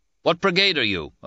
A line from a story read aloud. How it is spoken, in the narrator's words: an officer called out